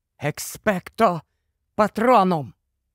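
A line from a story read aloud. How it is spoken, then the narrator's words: Whisper. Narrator (Ukrainian): він прошепотів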